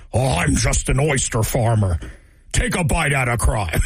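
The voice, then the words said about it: Gruff cartoonish impression of a politician. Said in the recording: “my impression of Graham Plattner sounds like a cross between McGruff the crime dog and Richard Nixon”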